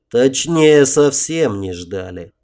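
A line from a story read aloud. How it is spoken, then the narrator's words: Grim, through teeth. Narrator (Russian): мрачно процедил Отто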